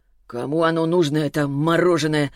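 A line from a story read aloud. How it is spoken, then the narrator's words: Grumbling. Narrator (Russian): проворчал Селиванов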